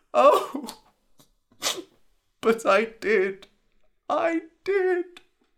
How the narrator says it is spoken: whimpered Dai

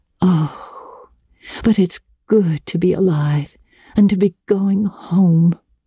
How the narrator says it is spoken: breathed Anne

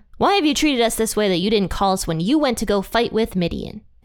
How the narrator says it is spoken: they rebuked him sharply

